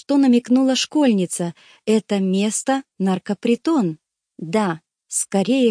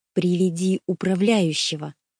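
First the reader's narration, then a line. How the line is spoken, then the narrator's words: Very quiet repetition. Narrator (Russian): повторил я очень тихо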